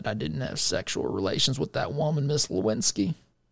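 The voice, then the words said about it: Poor Bill Clinton impression. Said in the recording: “As Bill Clinton said ... That's a terrible impression, by the way.”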